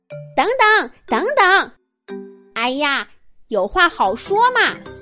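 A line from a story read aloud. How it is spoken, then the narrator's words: Flustered loud shout. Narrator (Chinese): 小兔子有点慌 高声喊着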